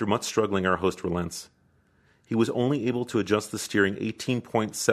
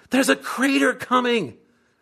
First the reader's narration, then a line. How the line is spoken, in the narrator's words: Sandy screams